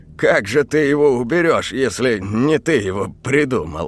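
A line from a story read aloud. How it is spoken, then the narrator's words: Scoffing. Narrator (Russian): хмыкнул домовой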